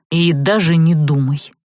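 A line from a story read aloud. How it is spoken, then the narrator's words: Sudden angry vampire growl. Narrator (Russian): неожиданно зло рыкнул вампир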